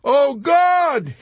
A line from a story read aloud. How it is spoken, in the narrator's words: he kept shrieking with no abatement of terror